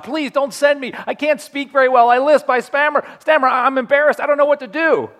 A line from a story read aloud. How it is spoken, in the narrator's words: Moses is pleading with God